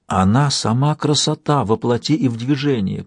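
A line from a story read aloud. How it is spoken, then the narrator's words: Whisper. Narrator (Russian): прошептал Янтарь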